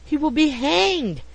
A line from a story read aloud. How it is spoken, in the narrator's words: he exclaimed with conviction